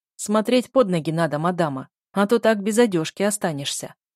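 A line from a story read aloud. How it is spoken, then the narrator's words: Big man's booming rumble. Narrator (Russian): прогудел бородатый здоровяк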